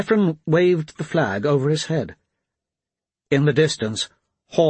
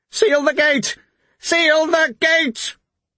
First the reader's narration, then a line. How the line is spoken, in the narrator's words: Petrogar cried